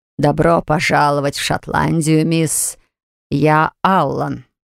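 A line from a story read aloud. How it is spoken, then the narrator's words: Scottish-accented English. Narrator (Russian): английский с шотландским акцентом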